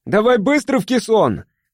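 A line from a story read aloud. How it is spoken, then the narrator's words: Shout. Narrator (Russian): крикнул тогда Мишка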